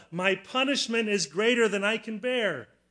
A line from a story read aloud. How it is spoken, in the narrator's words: After killing Abel, Cain cried out